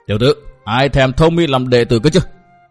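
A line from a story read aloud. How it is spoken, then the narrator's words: Angry scolding. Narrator (Vietnamese): Sở Kiếm Hùng giận dữ mắng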